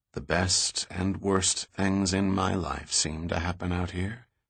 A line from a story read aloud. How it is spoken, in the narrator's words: he finally whispered in her ear